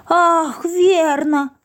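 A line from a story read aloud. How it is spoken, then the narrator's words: Exclaimed. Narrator (Russian): воскликнул Спруц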